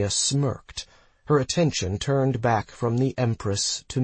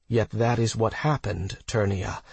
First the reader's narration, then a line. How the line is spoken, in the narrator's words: Talaxthi interjected calmly